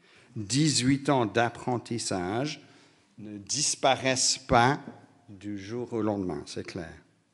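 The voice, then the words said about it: British accent speaking French. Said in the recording (French): “mon accent britannique”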